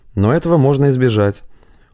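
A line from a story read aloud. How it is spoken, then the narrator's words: Matter-of-fact tone. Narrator (Russian): уже другим будничным тоном заявил Сергей Вениаминович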